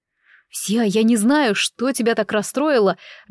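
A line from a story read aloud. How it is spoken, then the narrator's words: Trembling, cautious voice. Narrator (Russian): дрожащим голосом осторожно заговорил Джуд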